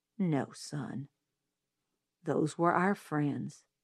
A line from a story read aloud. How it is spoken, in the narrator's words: he said gently